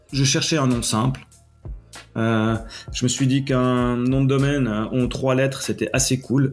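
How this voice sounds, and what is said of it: Swiss French accent. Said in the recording (French): “je suis basé en Suisse, vous l'aurez entendu à mon accent.”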